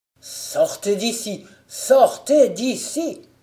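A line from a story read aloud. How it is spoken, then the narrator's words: Emperor crying out in fury. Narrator (French): s'écria l'empereur, hors d'état de retenir plus longtemps sa juste fureur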